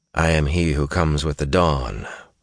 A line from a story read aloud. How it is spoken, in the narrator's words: Rand told them quietly